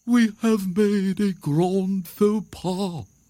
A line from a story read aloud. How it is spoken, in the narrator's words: the owl said solemnly